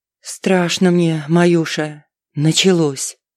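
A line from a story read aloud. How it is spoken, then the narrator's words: Muffled mutter. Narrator (Russian): мать глухо пробормотала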